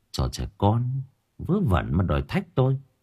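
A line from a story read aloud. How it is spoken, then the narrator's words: Muttering. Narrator (Vietnamese): miệng lẩm bẩm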